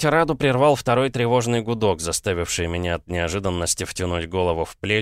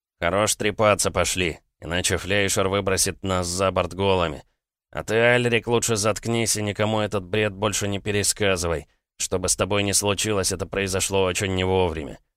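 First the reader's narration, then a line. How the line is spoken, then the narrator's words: Heavy sigh, grumbled. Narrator (Russian): Лигачев вздохнул так, словно поднял гору, и буркнул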